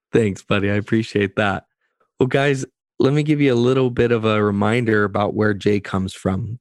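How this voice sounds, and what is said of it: Tired, lower, slower voice. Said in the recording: “my voice is lower and I'm going to talk a little slower because I'm just so tired”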